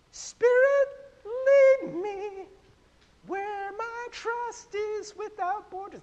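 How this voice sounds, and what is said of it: Imitates another person's singing voice. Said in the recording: “my Connie impression”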